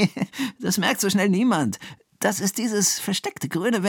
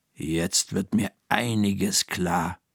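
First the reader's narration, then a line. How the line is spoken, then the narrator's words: Murmured. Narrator (German): murmelt Frau Krüger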